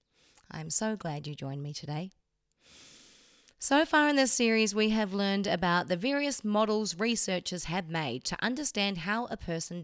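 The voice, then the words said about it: New Zealand accent. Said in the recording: “in case you haven't heard from my accent, I'm also from New Zealand.”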